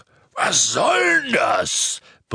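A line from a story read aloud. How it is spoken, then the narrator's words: Bellowed. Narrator (German): brüllte Hagrid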